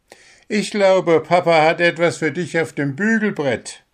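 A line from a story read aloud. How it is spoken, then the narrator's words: Laughing. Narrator (German): lachte Spitznäschen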